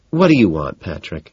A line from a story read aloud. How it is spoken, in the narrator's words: She sighs